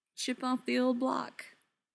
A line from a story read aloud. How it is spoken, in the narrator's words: Neil said dryly